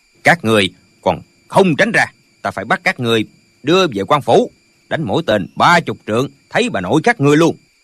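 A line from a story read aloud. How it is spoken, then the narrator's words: Shouted threat. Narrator (Vietnamese): quát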